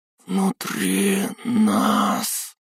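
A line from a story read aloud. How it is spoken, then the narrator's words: Whispered. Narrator (Russian): прошептала она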